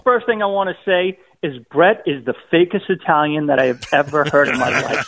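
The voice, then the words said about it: Boston accent. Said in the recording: “from Boston ... despite his accent”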